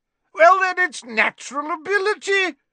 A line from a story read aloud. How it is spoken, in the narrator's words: shouted Slughorn